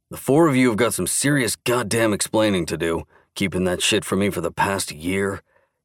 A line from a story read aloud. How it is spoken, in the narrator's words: grunted